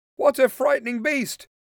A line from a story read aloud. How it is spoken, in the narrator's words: Ned cried